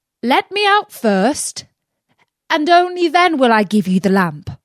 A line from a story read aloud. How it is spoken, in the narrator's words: Aladdin called out